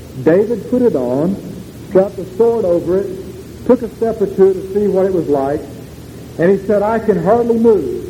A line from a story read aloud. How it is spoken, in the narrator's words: he exclaimed